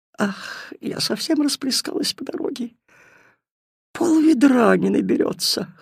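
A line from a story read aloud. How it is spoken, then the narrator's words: Whimpering. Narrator (Russian): хныкала вода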